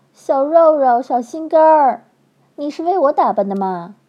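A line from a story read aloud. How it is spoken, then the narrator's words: Repeated calling out. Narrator (Chinese): 叫着叫着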